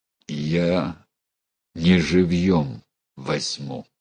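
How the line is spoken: Through gritted teeth. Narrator (Russian): процедил сквозь зубы Терехов

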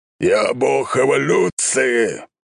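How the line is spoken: Old man roaring. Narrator (Russian): взревел бородатый дед

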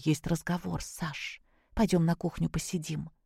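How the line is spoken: Whispered. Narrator (Russian): Зоя шепнула ему

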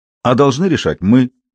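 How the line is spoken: Sharp objection. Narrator (Russian): резко возразил Борис

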